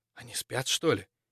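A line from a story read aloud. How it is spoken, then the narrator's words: Barely audible whisper. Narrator (Russian): еле слышно прошептал на ухо цапля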